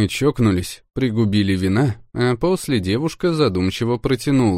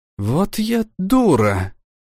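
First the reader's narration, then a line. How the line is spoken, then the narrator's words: Breathless exhale. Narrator (Russian): выдохнула она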